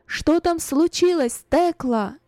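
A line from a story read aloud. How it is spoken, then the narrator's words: Loud question. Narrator (Russian): громко спросила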